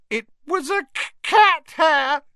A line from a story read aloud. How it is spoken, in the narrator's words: she howled